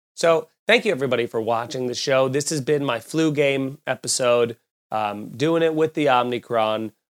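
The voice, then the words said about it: Ill-sounding voice. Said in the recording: “I'm sorry for how my voice sounds, even more annoying than normal.”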